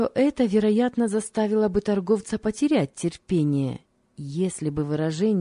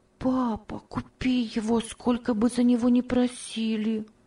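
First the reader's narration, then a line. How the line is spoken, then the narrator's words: Soft whisper. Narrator (Russian): Тихо шептала Ева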